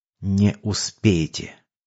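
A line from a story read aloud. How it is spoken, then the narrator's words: Gloating whisper, old man. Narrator (Russian): Дед злорадно прошептал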